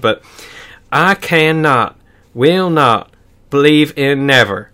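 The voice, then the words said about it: Put-on Southern US accent. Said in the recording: “his accent's so funny ... I apologize to everyone from North Carolina. Uh, yeah, that's a that's a good Southern accent, actually.”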